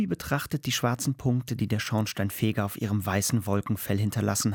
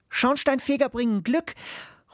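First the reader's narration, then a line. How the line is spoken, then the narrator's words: Girl calling out. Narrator (German): ruft das Mädchen mit den grünen Sandalen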